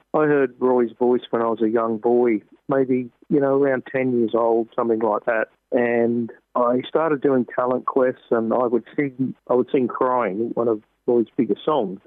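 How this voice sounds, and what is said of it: Australian accent. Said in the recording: “That accent and the greeting gives it away. You are from Australia.”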